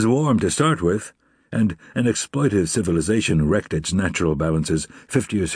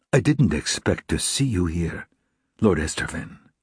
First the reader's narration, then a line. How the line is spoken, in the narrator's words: said, in a low voice